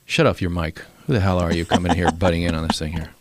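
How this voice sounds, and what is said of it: Don Imus impression. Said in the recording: “my Don Imus impression”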